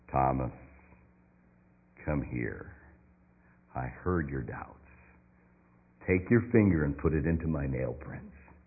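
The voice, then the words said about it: Deep voice. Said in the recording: “deep voice”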